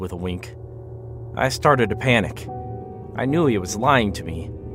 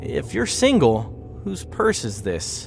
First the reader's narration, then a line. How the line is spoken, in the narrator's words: Brian laughed nervously